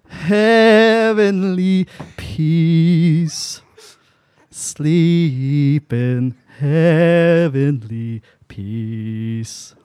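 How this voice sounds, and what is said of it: Singing with slight country twang. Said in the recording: “I love that slight little twang. ... My country comes out. ... I just want to put that twang on there.”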